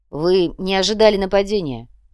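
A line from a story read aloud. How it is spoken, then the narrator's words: Grim. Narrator (Russian): мрачно произнес внедрак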